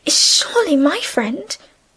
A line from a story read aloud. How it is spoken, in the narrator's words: Emily pleaded